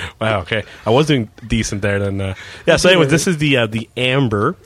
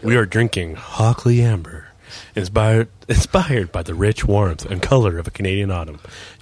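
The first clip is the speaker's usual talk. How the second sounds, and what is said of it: Sultry, seductive voice. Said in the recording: “Sexy voice.”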